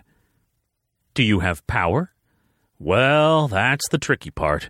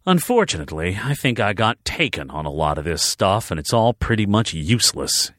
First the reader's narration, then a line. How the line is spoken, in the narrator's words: he grumbled